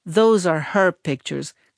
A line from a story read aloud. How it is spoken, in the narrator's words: Gladys muttered in a voice that reminded me of the sound from a comb harmonica